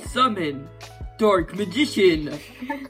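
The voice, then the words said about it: Yugi impression. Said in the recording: “his Yugi impression”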